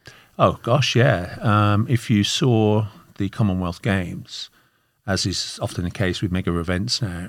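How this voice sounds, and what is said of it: Birmingham English accent. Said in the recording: “I can hear your accent, which we were trying to place geographically ... where is your accent from? ... I'm from Birmingham in the Midlands of the United Kingdom.”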